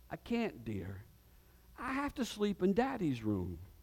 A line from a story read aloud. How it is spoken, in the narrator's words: Smiling, the mother said tenderly